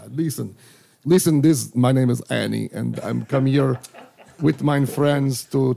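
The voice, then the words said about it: Attempted put-on Russian accent. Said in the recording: “We're gonna do Russian accents. ... That's what I was trying to do, was grab a Russian accent.”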